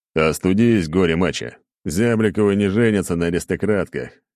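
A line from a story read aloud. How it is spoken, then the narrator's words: Chuckled. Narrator (Russian): хохотнул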